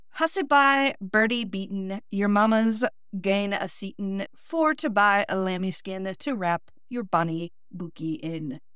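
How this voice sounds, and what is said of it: Clumsy Scottish attempt, Midwestern accent. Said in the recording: “my flat Midwestern accent has to try to pronounce Scottish version ... That probably sounded terrible being pronounced in my Northeast Ohio accent”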